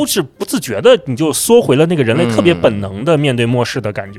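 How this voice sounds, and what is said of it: Usual voice. Nothing is said of it.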